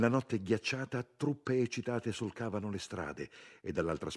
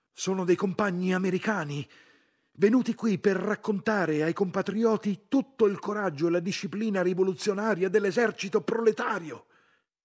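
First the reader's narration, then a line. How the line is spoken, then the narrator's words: Shouting. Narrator (Italian): gridando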